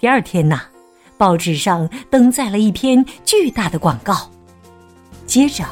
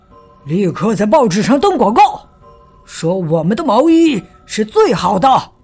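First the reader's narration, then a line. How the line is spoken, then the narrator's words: Angry boss. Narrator (Chinese): 纽约毛衣公司的老板很生气，他叫来职员说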